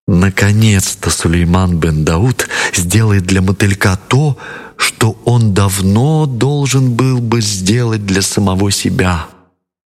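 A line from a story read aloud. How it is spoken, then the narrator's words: Happy whisper. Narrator (Russian): весело захлопала в ладоши и прошептала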